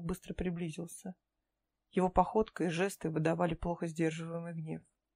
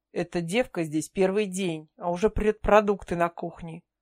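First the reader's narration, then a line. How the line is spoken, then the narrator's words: Angry explanation. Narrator (Russian): зло пояснил Грег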